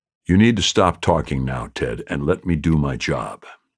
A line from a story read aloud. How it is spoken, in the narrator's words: Jessie said